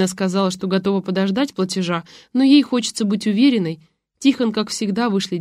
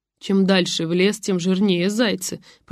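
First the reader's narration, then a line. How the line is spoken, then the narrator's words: Mumbled. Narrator (Russian): пробормотала Буля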